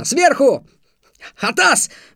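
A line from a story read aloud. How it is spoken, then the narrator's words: Yelling. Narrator (Russian): заорал я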